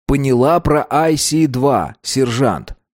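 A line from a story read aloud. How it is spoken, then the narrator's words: Plain. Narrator (Russian): сказал он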